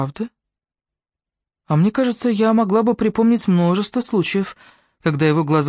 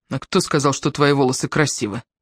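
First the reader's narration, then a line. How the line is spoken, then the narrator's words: Cold question. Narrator (Russian): спросил Крис холодно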